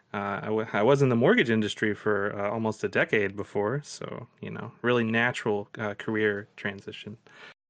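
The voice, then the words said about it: Kentucky accent. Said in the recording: “I'm from Kentucky, as you can tell by the accent.”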